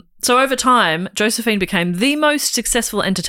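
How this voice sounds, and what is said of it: Usual voice. Nothing is said of it.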